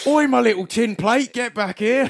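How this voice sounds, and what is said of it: High-pitched mock Cockney voice. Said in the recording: “He didn't have a Cockney British accent, by the way. ... Was it that high pitch? ... It was that high pitch.”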